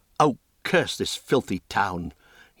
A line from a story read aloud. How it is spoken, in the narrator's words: broke out in rage